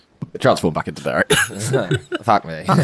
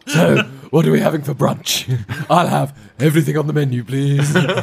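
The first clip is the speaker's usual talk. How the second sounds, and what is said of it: Imitates another person's voice. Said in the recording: “my Keth impression... That's spot on”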